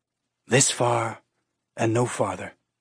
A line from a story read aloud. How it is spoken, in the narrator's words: she whispered